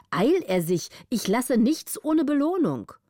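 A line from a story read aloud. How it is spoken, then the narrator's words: Contemptuous call. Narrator (German): rief der Graf mit großer Herabschätzung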